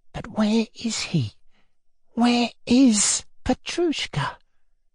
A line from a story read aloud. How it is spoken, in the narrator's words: went on in a whisper, conscious of intense excitement and feeling a perceptible tremor run all over him